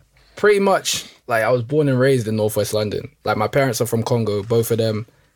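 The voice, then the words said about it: Noticeable accent. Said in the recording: “I've heard an accent straight away”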